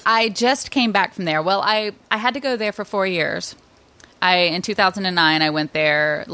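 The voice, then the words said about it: Alabama accent. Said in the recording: “I grew up in Alabama. ... I was listening to your accent”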